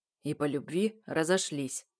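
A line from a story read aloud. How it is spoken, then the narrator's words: Gloomy. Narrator (Russian): добавляет мрачно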